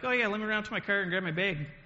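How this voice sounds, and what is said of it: Minnesotan accent. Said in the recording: “That's not how Kansans talk. That's not even how Montanans talk... I'd been hanging out with a bunch of people that were from Minnesota”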